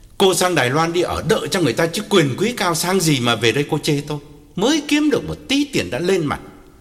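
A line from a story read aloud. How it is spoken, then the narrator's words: Angry loud yell. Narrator (Vietnamese): Nghi hùng hục chạy vào nhà và quát lớn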